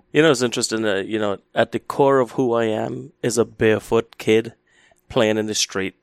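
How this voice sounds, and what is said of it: Trinidadian accent. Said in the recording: “you have a beautiful accent, which I just love, and because you grew up in Trinidad”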